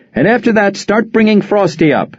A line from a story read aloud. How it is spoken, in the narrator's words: barked like an admiral